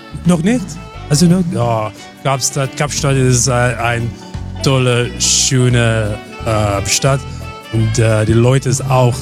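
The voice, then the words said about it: Slight South African accent in German. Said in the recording (German): “Der hat so leichten Dialekt. ... Aus Südafrika.”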